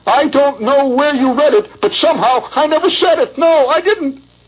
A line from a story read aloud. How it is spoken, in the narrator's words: He howled